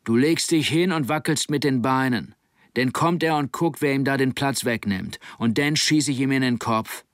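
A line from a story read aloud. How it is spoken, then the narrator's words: Man shouting over wind. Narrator (German): Durch den Wind rief er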